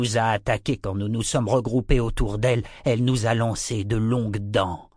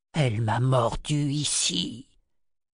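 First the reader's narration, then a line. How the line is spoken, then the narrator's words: Snake's hoarse whisper. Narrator (French): chuchota le serpent rouge d'une voix rauque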